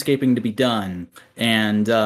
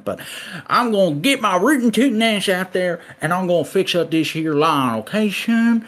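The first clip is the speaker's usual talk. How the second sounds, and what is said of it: Put-on country accent. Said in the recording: “this accent now instead of during the country music segment”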